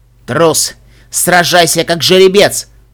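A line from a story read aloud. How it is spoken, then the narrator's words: Angry growl. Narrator (Russian): прорычал разозленный единорог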